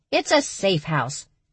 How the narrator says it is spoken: the badger snapped

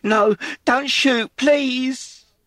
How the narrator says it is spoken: Peg screamed

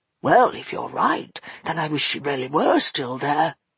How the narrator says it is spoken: muttered Fenolio, with a sigh

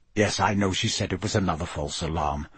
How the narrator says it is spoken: Sirius said hastily

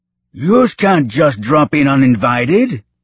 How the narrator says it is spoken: barked the dock officer, a stout creature

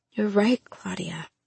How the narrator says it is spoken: Ma whispered

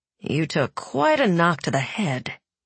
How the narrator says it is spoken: said Nikolai gently

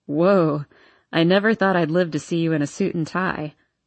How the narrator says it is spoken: Landon laughs

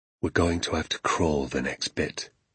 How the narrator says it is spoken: he whispered

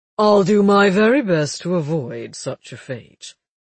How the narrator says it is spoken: Alec said dryly

